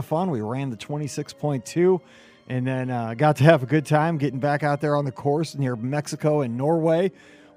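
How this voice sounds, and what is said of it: Recovering voice, deep like radio DJ. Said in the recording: “my voice is a little bit, well, it actually kind of sounds like a radio DJ... It's recovering from all that cheering on Sunday”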